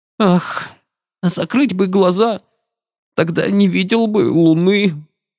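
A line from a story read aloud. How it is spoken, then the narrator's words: Sudden whimpering. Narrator (Russian): захныкал он вдруг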